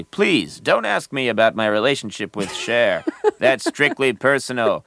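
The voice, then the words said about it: Phony Hollywood celebrity character voice. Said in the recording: “It talks just like a phony Hollywood celebrity.”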